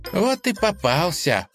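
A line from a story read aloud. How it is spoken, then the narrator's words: Smiling. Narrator (Russian): улыбнулась Лиза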